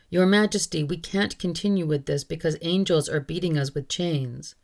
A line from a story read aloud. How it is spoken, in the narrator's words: the torturers all cried out